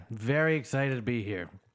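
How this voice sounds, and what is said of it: Flat, tired, sarcastic-sounding delivery. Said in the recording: “You sound a little sad, a little ... tired ... You got always sound sarcastic”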